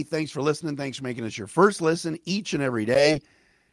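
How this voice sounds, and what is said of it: Slightly raspy voice. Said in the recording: “a little bit of a raspy voice”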